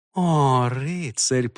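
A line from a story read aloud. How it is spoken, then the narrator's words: Purring. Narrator (Russian): промурлыкала она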